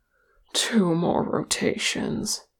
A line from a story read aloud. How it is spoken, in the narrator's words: muttered Ori